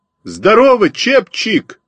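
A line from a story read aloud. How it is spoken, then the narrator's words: Shouting greeting. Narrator (Russian): крикнул я своему старому знакомому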